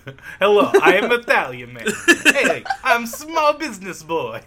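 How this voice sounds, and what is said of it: Put-on Italian accent. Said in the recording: “The accents are kind of at that level”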